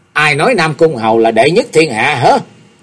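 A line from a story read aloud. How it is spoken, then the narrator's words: Menacing, gritted question. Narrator (Vietnamese): đưa ánh mắt hung quang gằn giọng hỏi sẵn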